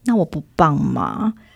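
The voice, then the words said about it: Quiet, pitiful child's voice. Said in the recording (Chinese): “他还会很可怜的在那边小声的说”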